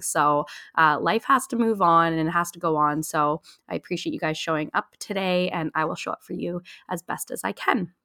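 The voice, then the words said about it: Sick voice, slightly off from cold. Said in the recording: “I got really, really sick ... I'm so sorry if I cough at all or if my voice sounds a little bit off ... the cold or the flu”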